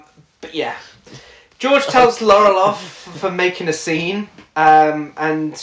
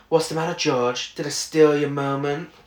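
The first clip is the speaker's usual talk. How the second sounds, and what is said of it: Imitates a character's voice, somewhat lifeless. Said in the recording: “That's quite a good impression, actually. ... it's a little more lifeless.”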